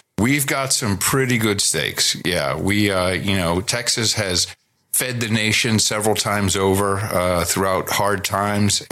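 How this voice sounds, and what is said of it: Texan American accent. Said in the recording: “I speak American. ... I speak Texan. You know, I'm in Texas, so I speak Texan.”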